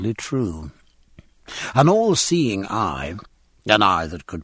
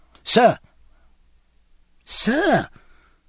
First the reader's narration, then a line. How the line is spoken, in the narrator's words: piped Babington into Jack's ear